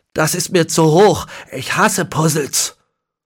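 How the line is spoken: Pained groaning shout. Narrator (German): stöhnte er gequält auf und rief

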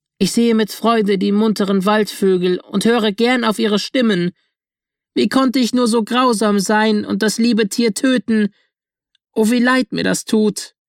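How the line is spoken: Called out, confessing remorsefully. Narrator (German): bekannte sein Vergehen und rief

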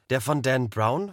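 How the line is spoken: Plain question. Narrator (German): fragte Sabine

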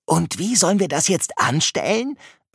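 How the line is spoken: Whispered. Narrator (German): flüstert Pino

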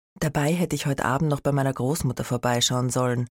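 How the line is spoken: Sigh. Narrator (German): seufzte Franz

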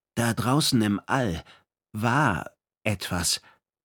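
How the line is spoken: Hesitant. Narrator (German): sagte Perihan Leko zögernd

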